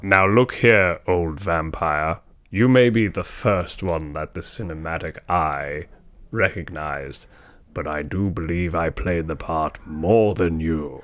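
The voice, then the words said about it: Distinguished accent, vampire character voice. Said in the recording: “At least I have a distinguished accent.”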